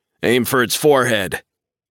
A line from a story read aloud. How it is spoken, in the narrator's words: I shout